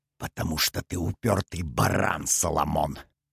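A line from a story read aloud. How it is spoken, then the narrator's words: Hiss. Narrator (Russian): Прошипела сеньора Кишкус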